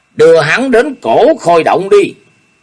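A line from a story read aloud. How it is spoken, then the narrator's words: Barked command. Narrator (Vietnamese): Ô Hữu Đạo quát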